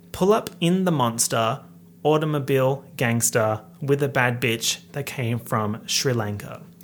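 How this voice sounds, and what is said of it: Australian accent. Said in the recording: “my heinous Australian accent is going to mess up the rhymes completely”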